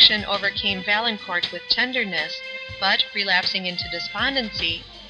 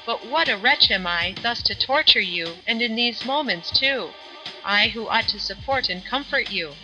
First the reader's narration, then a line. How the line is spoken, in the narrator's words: seeming to recollect himself, he exclaimed